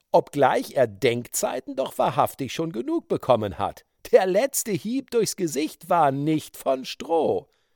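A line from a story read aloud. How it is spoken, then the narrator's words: Laughing. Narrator (German): lachte Blackfoot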